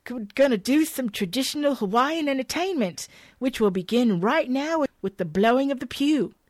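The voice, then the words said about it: Attempted put-on Australian accent. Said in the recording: “Then I try to put on the Australian accent I can't read.”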